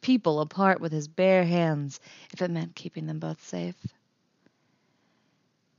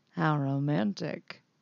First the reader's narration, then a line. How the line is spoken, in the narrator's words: he murmurs